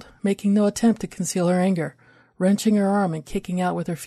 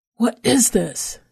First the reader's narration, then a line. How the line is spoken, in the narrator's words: repeated with a snarl